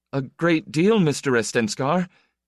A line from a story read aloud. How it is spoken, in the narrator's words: Itale said, stammering